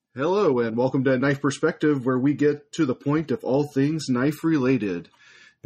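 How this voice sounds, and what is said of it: Rich baritone announcer voice. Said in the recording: “announcer voice. ... That's a nice, rich baritone you've had today.”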